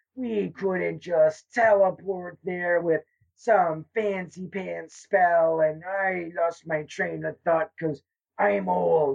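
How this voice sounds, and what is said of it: Old man voice. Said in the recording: “old man voice”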